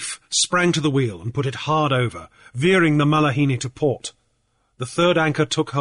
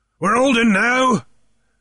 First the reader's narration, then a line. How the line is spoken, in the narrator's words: came Captain Warfield's answering shout